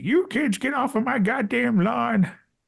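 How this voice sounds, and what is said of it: Grumpy old man voice. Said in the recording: “We might sound like the old geezer at the end of the street. ... you are way too good at that ... I'm good at voices. I'm good at accents.”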